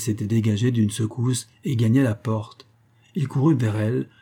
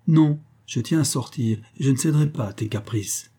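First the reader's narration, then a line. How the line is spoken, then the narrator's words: Sharp, harsh retort. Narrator (French): Elle répliqua nettement, durement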